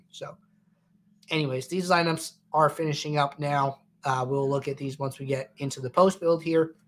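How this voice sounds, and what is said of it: Congested, slightly sick-sounding voice. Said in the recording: “Feeling a little sick today ... I sound a little congested.”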